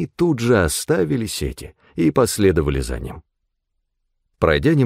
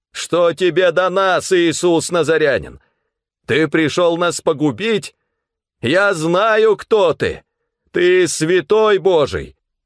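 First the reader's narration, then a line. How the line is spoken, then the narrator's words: Shouting. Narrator (Russian): Он закричал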